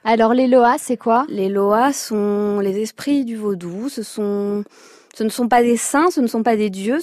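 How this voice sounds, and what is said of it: Slight Creole accent. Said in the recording (French): “un petit accent créole”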